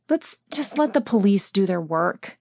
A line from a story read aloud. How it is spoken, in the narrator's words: sighed